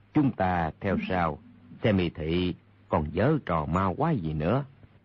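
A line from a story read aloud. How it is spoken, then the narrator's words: Lowered voice. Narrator (Vietnamese): Đạo nhân kia hạ giọng nói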